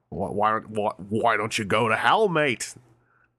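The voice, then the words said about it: Put-on Australian accent. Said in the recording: “That was a great Australian accent I just did there. ... I thought an Australian man showed up and took over.”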